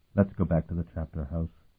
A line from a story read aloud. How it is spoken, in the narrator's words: he suggested gently